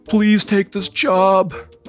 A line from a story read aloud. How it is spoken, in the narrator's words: begged the store owner